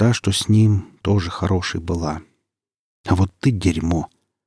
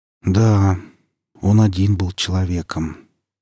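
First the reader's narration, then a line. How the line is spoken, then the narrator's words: Calm, measured. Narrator (Russian): спокойно, с расстановкой проговорил Ересь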